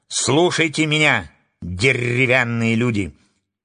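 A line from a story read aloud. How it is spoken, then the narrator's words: Loud. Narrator (Russian): Громко начала она свою речь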